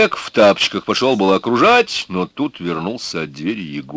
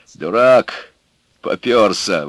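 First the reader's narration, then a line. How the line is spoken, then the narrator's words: Grumbling. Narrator (Russian): ворчал он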